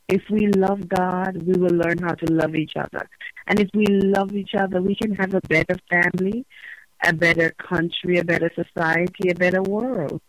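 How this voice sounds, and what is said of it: Jamaican accent. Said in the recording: “You have a charming accent ... I am Jamaican by birth and nationality.”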